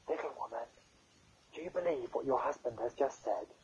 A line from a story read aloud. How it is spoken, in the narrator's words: Balkis whispered